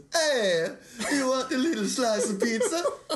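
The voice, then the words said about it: Put-on Italian accent, cartoonish. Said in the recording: “Give them a taste of Italian. ... Italian's the one I do the best because I just do Mario.”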